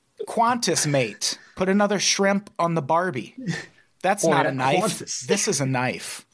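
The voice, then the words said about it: Put-on Australian accent. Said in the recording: “with an Australian accent ... That was my crocodile Dundee.”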